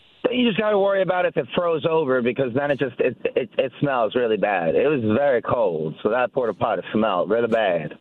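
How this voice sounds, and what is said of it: Noticeable unidentified accent. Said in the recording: “I don't know what the accent is. ... But your accent was surprisingly delightful.”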